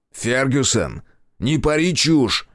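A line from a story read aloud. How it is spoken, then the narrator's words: Barked. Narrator (Russian): рявкнул Райдер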